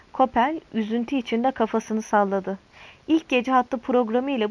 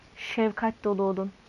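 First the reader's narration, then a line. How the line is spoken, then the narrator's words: Whispered. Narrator (Turkish): diye fısıldadı Mori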